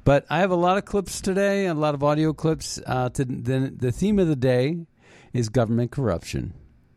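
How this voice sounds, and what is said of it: Funny-sounding voice with a cold. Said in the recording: “My voice sounds funny. I have a little bit of a cold.”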